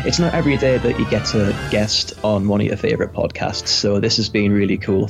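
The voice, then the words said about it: Warm, positive radio-style voice. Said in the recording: “this overall positive spirit in that voice. Immaculate. ... you got a great radio voice.”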